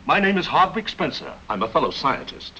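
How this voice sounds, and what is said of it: Fake accent. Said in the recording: “he has a fake accent.”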